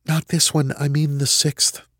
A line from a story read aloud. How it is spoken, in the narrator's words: she whispered